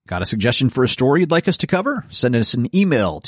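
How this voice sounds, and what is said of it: Usual voice. Nothing is said of it.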